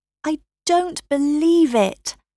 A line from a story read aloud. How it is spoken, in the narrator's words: Kara cried